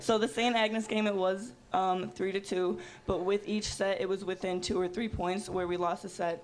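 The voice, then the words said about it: Strained, hoarse voice. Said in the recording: “that's why my voice is like this. I've been doing a lot of screaming this week.”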